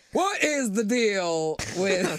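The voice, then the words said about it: A terrible comedic impression. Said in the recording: “That's a terrible impression.”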